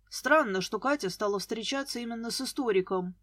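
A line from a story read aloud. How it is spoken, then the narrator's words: Muttered. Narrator (Russian): буркнул Глеб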